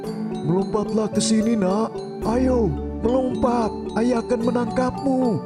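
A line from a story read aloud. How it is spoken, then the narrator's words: Hurried shouting father. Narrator (Indonesian): teriak sang ayah dengan suara tergesa-gesa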